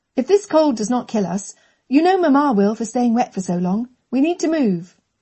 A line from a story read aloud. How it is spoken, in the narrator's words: Catherine snapped